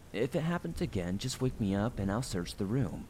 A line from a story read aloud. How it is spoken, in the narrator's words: said in a reassuring voice